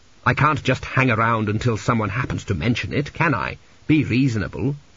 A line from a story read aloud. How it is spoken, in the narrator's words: he snapped